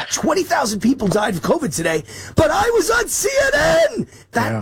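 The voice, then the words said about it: Imitates another person's voice. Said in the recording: “my best Fauci impression”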